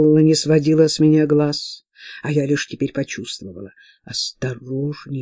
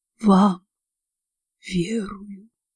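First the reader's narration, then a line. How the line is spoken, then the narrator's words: Quiet reply. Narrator (Russian): тихо ответила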